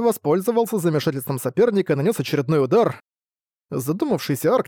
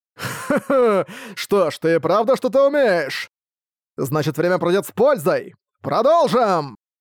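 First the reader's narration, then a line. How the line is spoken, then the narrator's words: Shouted. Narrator (Russian): выкрикнул Брэд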